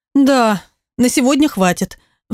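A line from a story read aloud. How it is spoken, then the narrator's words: Sigh. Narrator (Russian): вздохнула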